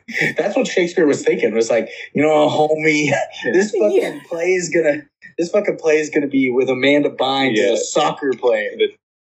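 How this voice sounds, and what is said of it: Put-on Cholo accent. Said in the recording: “Are you doing the Cholo accent for a second there? ... Yeah.”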